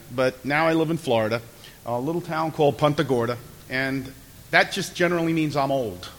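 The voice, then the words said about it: New York accent. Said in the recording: “I'm from New York, as you probably got from my accent”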